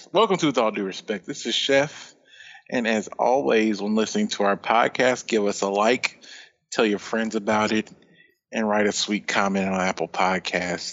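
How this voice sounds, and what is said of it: Sultry, smooth introduction voice. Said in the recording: “That was a very sultry introduction, by the way. Your voice was hitting all the notes.”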